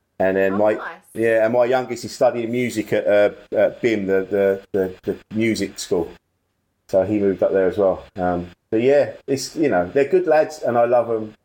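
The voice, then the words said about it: Estuary English accent, near Cockney. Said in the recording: “we've got a similar accent, because it's like an estuary... It's got an estuary twang... It's not quite Cockney, but it's almost.”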